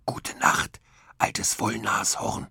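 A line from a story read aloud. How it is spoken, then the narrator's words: Whispered. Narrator (German): flüsterte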